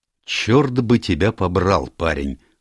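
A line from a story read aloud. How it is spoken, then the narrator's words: Growled. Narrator (Russian): прорычал Грегори Рольф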